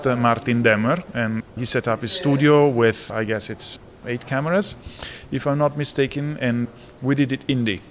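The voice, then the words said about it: Strong Italian accent. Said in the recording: “my accent, it's an indication that I was born in Italy ... my strong Italian accent”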